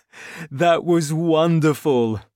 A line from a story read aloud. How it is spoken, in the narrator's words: cried